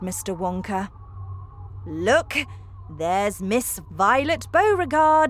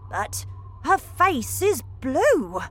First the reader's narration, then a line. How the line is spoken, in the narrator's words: cried Grandpa Joe